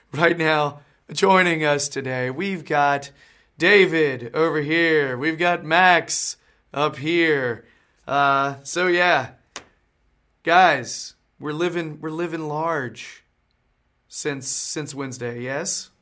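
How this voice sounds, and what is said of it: Weakened voice, not fully recovered. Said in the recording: “I'm still sort of sick. My voice isn't all the way back”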